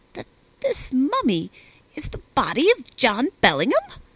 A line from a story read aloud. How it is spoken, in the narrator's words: he exclaimed after a long pause